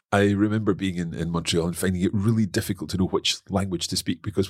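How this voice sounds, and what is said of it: Scottish accent. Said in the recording (French): “I had my Scottish accent”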